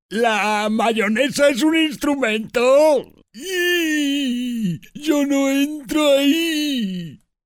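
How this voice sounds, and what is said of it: Cartoon character voice. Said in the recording (Spanish): “Puedo ser Patricio.”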